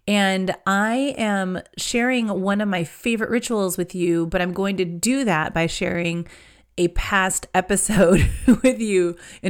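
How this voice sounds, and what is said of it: Congested voice from a cold. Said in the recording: “I have a bit of a cold. It makes it hard for me to talk.”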